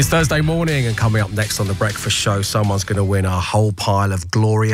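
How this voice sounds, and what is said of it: Usual voice. Nothing is said of it.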